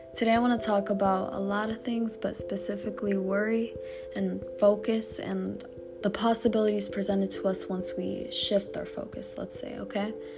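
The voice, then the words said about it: Hoarse, fading voice. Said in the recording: “I am kind of losing my voice”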